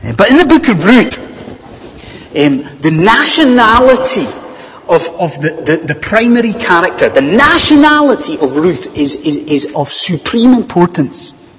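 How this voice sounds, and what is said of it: Scottish accent. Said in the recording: “as a Scot ... my accent”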